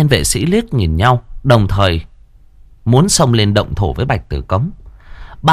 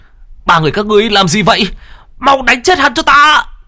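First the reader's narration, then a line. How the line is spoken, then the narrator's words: Screaming. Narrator (Vietnamese): Phùng Lãng gào lên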